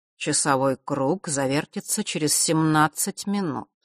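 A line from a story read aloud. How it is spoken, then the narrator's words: Even voice. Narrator (Russian): ровным голосом произнес Астариус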